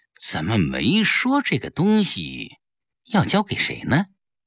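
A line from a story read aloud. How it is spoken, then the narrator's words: Plain. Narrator (Chinese): 说完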